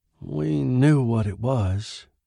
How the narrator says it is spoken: he said hoarsely

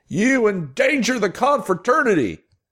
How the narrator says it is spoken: he shouted again

